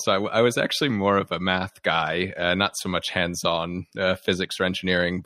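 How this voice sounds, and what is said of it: American accent. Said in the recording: “you and your listeners can tell from my accent, I'm from the US.”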